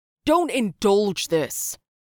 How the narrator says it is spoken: Sepp shouted

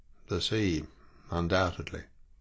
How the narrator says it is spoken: murmured

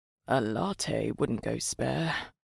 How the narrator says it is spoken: Mike muttered

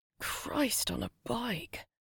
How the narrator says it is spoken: Gemma muttered to herself

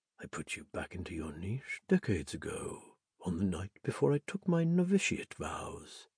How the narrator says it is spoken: whispered

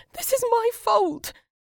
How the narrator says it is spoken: she cried

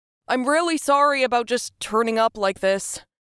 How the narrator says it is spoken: Sam shouted

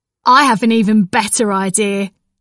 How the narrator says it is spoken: Pop laughed

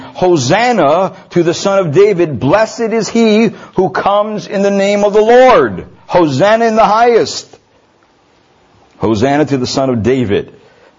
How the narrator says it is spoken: were shouting

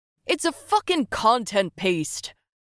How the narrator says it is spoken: shouted one of the usual rabble

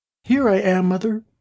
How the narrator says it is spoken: a little voice cried

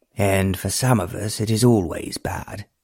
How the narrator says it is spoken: Randolph grumbled in a disagreeable voice

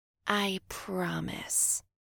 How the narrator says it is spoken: Lydia whispered

